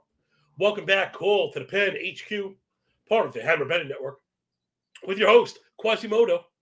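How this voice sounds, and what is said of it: Hoarse, strained failing voice. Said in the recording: “my voice is hanging on by a thread ... Gland swollen till they touch”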